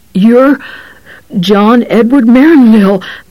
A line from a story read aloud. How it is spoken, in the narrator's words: the cop gasped, running it all together as if he really had only one name, like Pele or Cantinflas